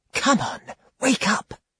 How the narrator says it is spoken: whispered

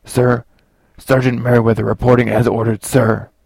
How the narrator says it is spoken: said, just below a shout

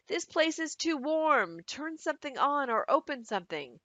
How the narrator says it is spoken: A woman said in a loud voice

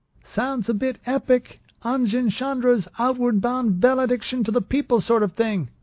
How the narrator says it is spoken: Trep shouted

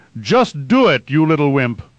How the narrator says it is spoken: Vorden shouted at Quinn

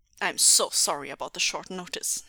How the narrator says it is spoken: said gruffly, keeping his amusement strictly on the inside

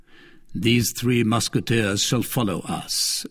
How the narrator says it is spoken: said he in an undertone

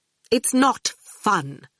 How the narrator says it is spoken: Dillian said coldly

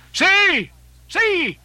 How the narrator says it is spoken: he cried

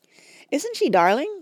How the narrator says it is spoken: cried Betsy

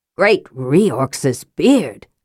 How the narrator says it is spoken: Flint exclaimed

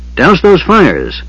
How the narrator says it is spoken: Otik was yelling wildly

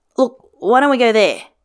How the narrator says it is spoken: Then, hastily

